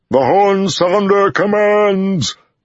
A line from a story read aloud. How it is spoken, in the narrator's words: Loyal bellowed